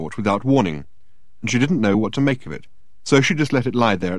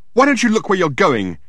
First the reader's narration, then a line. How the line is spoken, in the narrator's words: she yelled at him